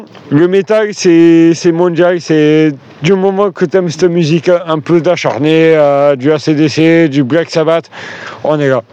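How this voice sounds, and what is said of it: Slight regional French accent. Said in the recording (French): “t'as un léger accent”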